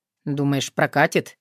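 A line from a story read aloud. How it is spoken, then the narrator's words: Quiet question. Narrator (Russian): тихо поинтересовался Тарас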